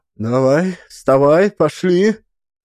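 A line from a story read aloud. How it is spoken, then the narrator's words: Sobbing. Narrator (Russian): Байса всхлипнула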